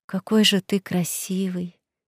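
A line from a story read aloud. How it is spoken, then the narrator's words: Whisper. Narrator (Russian): прошептала я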